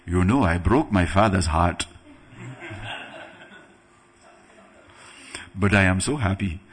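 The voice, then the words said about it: Put-on African accent. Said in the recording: “That was my African accent. ... I'm half African, I can do that.”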